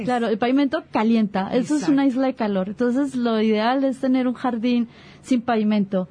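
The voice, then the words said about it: Colombian Spanish accent. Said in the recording (Spanish): “Colombiana, sí, sí te escuchamos. Sí. Ese acento”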